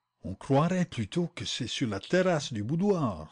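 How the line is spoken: Breathy whisper. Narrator (French): souffla Sholmès

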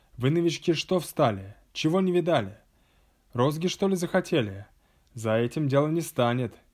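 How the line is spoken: Menacing shout. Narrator (Russian): учитель закричал грозно

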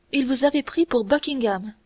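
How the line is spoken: Exclaiming. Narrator (French): s'écria d'Artagnan

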